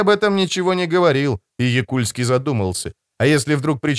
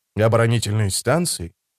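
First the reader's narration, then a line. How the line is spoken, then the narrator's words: Long sigh. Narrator (Russian): Якульски протяжно вздохнул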